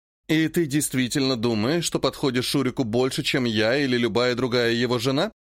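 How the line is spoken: Plain. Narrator (Russian): спросила леди Вавилона

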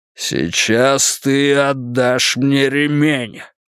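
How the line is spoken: Growled. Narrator (Russian): прорычал он

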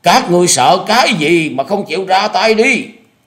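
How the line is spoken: Shouting with last strength. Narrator (Vietnamese): thu hết tàn lực hét lớn

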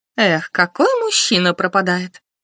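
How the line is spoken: Feigned sigh. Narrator (Russian): Лика притворно вздохнула

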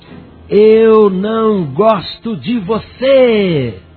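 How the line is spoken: Emboldened boy's loud shout. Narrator (Portuguese): o menininho, encorajado pela presença da sua mãe, encheu os pulmões de ar e gritou bem alto

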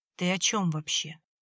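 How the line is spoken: Sorrowful sigh. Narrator (Russian): Борис горестно вздохнул

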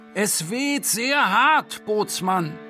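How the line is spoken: Shouting for company. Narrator (German): aus diesem Drang nach menschlicher Nähe sagte, oder schrie ich vielmehr

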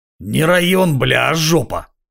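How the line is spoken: Hoarse rasp, vagrant. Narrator (Russian): прохрипел бомж

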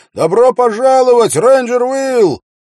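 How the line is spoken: Young man's shout. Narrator (Russian): самый молодой, нарушая строгое распоряжение, крикнул

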